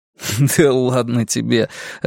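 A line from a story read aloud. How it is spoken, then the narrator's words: Laughing reply. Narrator (Russian): рассмеявшись, ответил я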